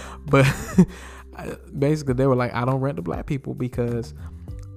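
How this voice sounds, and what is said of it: Usual voice. Nothing is said of it.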